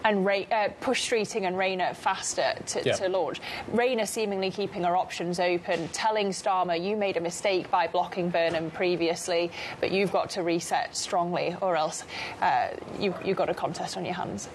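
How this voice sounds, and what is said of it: Manchester accent. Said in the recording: “we are from Manchester. ... The accent does it.”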